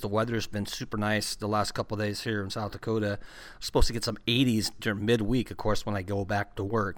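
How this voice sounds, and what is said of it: Slightly hoarse voice. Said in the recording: “my throat's a little hoarse today. I don't know if it's allergies.”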